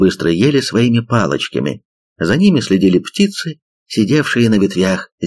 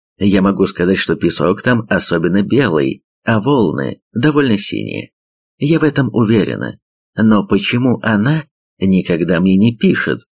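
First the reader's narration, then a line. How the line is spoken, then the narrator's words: Plain. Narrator (Russian): спросила Сан Мун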